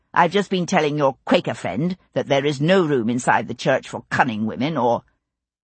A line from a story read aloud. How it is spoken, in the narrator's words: he said coldly